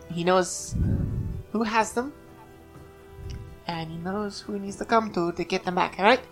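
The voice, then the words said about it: Slips into a put-on accent. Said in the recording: “Why did I slip into another accent right there?”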